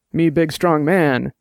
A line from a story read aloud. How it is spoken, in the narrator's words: Dex said, and grunted